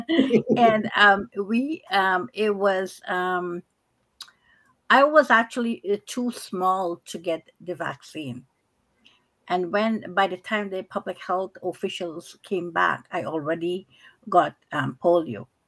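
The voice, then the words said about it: Guyanese accent. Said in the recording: “I can't mix it up with your accent, honey.”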